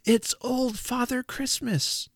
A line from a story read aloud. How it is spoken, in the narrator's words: With one breath, we exclaimed